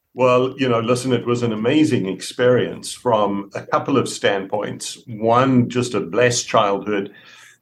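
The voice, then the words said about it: South African accent. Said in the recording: “you've noticed his accent ... that is not a Texas accent. So it's not a Texan drawl ... grew up in South Africa”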